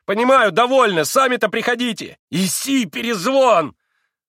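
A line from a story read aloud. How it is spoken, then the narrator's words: Fierce shout. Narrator (Russian): Совсем уже свирепо прокричал он собаке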